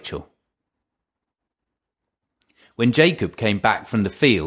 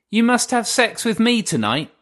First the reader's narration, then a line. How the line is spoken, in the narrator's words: she said